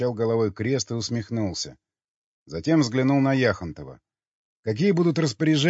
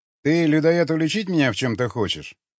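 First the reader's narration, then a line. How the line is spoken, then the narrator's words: Sharp. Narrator (Russian): резко сказал Юрий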